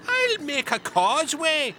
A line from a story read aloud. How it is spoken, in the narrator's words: yelled Finn